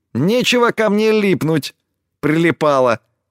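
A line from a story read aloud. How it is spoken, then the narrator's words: Squeak. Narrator (Russian): Пискнула она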